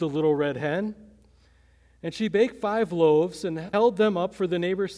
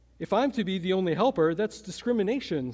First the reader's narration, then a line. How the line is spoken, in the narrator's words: said the goose